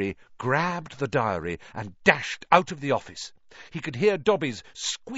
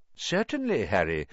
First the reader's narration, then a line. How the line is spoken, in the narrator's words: said Dumbledore calmly